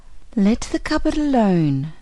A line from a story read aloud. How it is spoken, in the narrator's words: said the goldfish to him earnestly